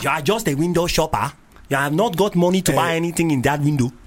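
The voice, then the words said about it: Put-on Nigerian accent. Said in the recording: “Can you do that in a Nigerian accent?”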